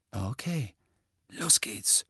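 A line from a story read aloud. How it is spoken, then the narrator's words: Whispering. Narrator (German): flüsterte Fred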